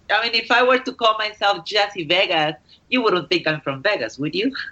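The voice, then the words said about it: Spanish-speaker's accent. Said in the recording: “you sound like you have an accent. Are you from like um, uh, do you speak Spanish or what is I, that accent?”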